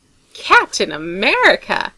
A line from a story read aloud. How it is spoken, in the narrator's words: Tony says in a faux shocked tone